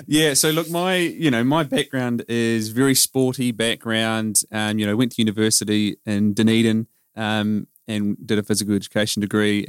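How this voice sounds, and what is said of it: New Zealand accent. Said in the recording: “I'm a Kiwi. That's that it little accent obvious”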